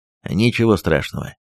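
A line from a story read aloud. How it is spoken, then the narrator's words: Stern voice. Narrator (Russian): суровым голосом произнес Тимофеевич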